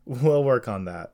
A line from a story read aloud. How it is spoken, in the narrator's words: Jesse said while holding back laughter